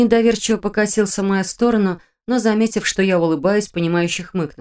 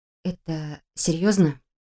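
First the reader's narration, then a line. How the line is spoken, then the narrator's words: Quiet, cautious question. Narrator (Russian): Тихо поинтересовалась, боясь его задеть и спугнуть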